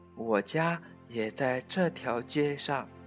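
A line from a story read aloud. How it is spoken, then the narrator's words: Quiet answer. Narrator (Chinese): 卡斯通小声的回答道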